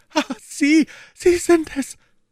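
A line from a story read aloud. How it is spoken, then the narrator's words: Stammering. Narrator (German): stammelte sie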